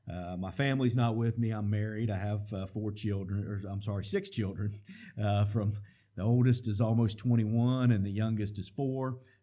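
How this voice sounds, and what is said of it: West Virginia accent. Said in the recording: “I don't have a Tennessee accent. I got a West Virginia accent.”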